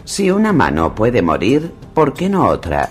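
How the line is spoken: Accented man replying. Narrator (Spanish): replicó el hombre que hablaba con acento

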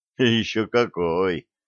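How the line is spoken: Heavy sigh. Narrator (Russian): тяжко вздохнул Блат

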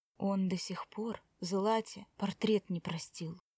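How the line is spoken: Whispered into ear. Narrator (Russian): шепнул Тим Коре на ухо

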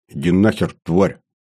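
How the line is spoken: Muttered. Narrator (Russian): снова буркнул я

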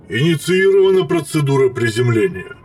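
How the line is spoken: Droning boom. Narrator (Russian): прогудел Пента-4

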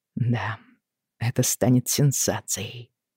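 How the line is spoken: Mumbled. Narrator (Russian): пробормотал Роджер

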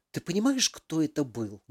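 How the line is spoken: Loud whisper. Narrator (Russian): Громким шепотом заговорила Алиса

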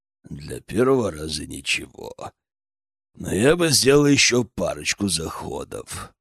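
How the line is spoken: Deep bass voice. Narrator (Russian): Он пробасил

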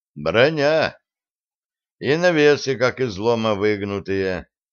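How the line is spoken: Glum. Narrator (Russian): произнес он уныло

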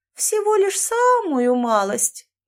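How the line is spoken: Innocent little voice. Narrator (Russian): невинным голоском ответила она

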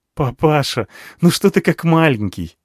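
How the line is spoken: Laughing. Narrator (Russian): засмеялся он

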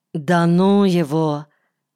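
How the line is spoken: Curt mutter. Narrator (Russian): Наталья коротко буркнула

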